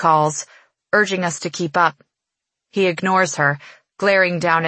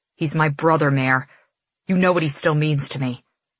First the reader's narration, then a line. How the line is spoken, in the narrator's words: whispers, almost begging